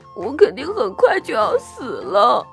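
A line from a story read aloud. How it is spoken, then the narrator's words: Sobbing. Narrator (Chinese): 豆苗姑娘抽泣着说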